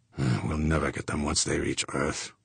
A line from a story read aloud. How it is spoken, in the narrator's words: Fuchs muttered